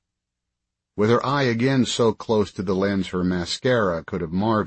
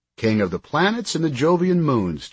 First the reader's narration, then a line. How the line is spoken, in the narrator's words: Chick said